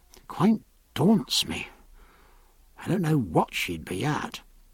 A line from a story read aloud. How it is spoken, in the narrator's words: lowering his voice